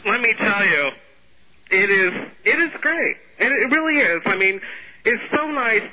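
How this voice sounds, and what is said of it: Affected, put-on voice. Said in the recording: “you're talking with this affected voice, with this obvious sound like this”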